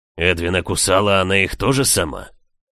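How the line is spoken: Growled. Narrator (Russian): рыкнул лорд

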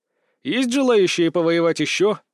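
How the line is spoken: Threatening question. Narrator (Russian): спросил я угрожающим тоном

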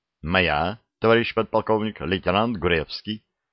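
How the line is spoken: Calm. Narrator (Russian): спокойно ответил Штубер

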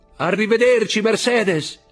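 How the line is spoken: Shouting. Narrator (Italian): gridò

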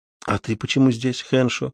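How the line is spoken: Quiet reply. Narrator (Russian): тихо ответил вопросом на вопрос Матабеле

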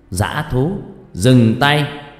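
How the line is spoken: Loud distant shout. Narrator (Vietnamese): vị sư từ phía xa đã hét lớn

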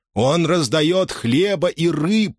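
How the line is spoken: Howled. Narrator (Russian): взвыл он

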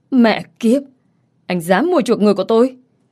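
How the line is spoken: Angry swearing. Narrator (Vietnamese): Robert tức giận chửi thề

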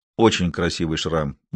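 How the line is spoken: Gloomy reply. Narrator (Russian): мрачно ответил Тарик

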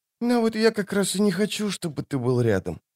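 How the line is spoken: Quiet but clear. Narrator (Russian): сказала она тихо, в полголоса, но вполне внятно

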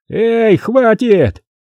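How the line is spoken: Shouting. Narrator (Russian): закричали от стены

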